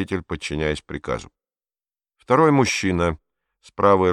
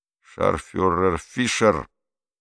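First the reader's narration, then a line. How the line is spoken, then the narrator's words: Clipped through teeth. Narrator (Russian): процедил мужчина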